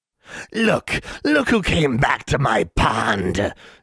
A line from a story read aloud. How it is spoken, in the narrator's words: it cackled